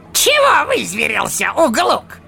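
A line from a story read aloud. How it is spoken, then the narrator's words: Snapping retort. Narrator (Russian): огрызнулся желтозубый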